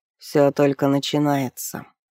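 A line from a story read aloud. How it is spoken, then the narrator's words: Grim. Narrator (Russian): мрачно ответил Ренеф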